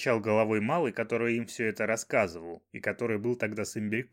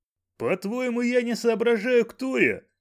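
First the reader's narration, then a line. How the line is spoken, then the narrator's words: Angry yell. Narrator (Russian): заорал имбирек ему в ответ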